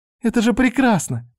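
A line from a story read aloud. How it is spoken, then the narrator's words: Squeaky. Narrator (Russian): пропищала Мика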